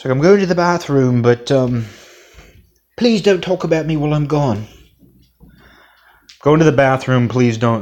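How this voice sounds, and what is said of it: Put-on British accent. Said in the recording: “I've been told my British accent is terrible by a British listener”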